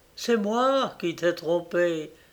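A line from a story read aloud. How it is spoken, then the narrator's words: Whispered. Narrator (French): dis-le tout bas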